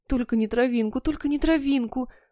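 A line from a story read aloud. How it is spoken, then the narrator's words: Terrified whisper to himself. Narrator (Russian): зашептал про себя Генри, съеживаясь от ужаса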